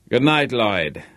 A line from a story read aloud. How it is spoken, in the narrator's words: said Harvey, a little stiffly